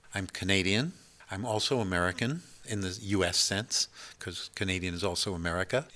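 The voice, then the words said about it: North American accent. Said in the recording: “you're accent is North American”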